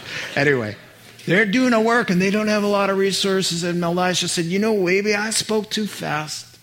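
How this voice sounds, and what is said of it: Usual voice. Nothing is said of it.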